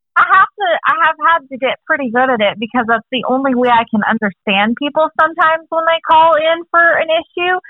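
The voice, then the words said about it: Strong Texas accent. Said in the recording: “you've picked up the accent so well ... I haven't heard that level of Texas accent”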